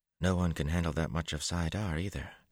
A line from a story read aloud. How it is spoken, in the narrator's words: Marlene murmured